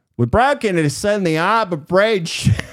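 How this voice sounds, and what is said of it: Mock Australian accent. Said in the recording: “Mark, the Australian ... I'm kidding. He doesn't talk like that at all ... He doesn't have much of an Australian accent”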